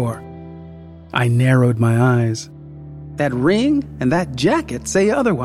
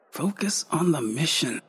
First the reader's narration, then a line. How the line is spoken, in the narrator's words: I muttered